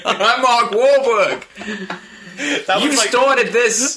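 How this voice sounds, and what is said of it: Poor put-on Boston accent. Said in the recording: “Not even, a good Boston accent.”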